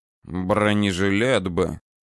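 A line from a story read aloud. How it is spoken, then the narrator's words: Regretful mutter. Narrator (Russian): с сожалением пробормотал Александр Михайлович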